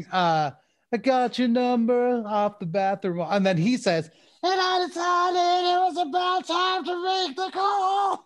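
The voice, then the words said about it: Gollum-like singing voice impression. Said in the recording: “with maybe like Smeagol singing, the Gollum singing ... he sounds like Gollum ... do a little impression. This is my impression”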